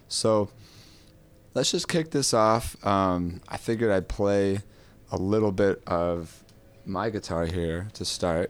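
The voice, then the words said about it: Slightly raspy voice. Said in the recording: “my voice is a little raspy coming off of a little cold”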